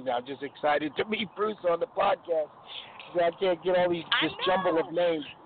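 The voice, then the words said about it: New York accent. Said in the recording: “You still sound like New York to me”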